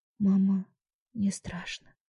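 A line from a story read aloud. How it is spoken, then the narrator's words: Whisper. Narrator (Russian): прошептала я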